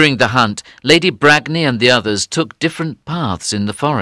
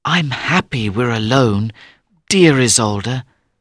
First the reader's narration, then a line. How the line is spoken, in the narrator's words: said Tristan quietly